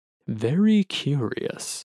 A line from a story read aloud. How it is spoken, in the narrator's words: Scribe murmurs as they hurriedly scribble in their journal